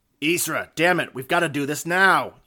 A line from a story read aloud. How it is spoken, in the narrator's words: yelled Vago